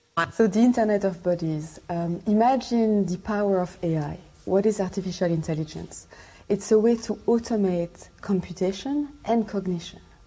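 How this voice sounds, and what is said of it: Thick accent. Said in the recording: “She's got a thick accent.”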